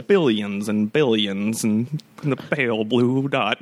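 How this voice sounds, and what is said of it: Carl Sagan impression. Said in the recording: “A pretty good impression ... that's pretty good ... That has such an interesting cadence”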